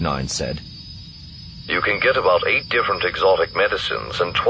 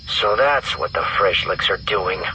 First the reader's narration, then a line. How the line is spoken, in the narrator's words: Rogue Seven growled